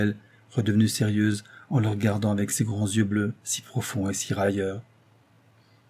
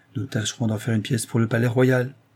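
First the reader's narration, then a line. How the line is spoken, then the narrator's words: Casual offhand tone. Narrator (French): fit-il d'un ton dégagé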